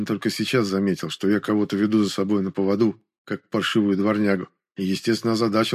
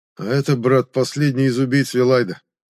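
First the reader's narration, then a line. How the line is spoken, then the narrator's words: Muffled reply. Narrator (Russian): глухо отозвался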